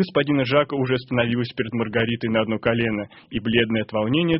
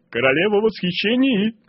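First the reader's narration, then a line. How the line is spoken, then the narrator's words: Shouting. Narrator (Russian): кричал Коровьев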